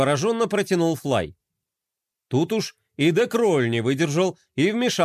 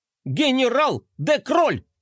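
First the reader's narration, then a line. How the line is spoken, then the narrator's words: Shrieking while bouncing. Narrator (Russian): завопил Мелкотрон, подпрыгивая на своей пружинке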